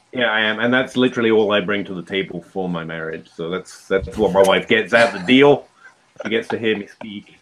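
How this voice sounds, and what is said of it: Speaks with a noticeable accent. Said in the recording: “you should be with your accent”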